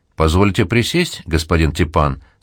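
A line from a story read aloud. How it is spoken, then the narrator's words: Plain question. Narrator (Russian): спросил Баташов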